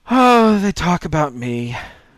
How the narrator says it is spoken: she yawned

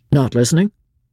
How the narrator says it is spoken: asked Chauvelin curtly

